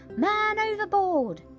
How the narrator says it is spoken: a voice from the fighting top shouting

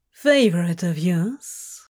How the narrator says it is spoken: he asked sweetly

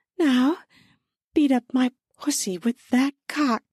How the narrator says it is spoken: I pleaded

